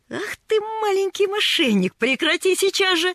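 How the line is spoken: Laughing scold. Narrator (Russian): рассмеялся он

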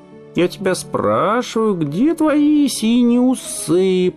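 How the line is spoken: Sing-song. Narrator (Russian): продолжал нараспев Жоржик

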